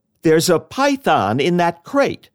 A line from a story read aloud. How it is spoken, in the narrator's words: he called out